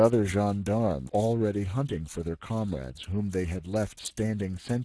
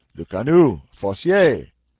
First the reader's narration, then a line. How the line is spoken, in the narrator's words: The sergeant called out